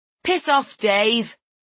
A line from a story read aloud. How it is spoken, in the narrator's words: I shout